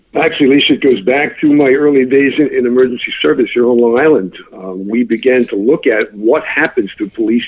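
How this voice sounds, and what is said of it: New York accent. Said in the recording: “New York Police Department, got the great accent”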